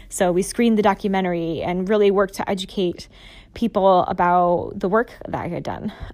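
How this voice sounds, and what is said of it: Hoarse voice. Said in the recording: “my voice is getting really hoarse”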